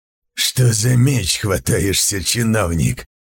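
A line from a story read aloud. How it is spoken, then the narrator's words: Hoarse insolent question. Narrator (Russian): хрипло спросил наглец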